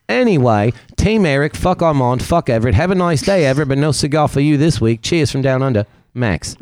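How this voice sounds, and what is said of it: Put-on Australian accent. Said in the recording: “A good Australian accent, wasn't it? Bad.”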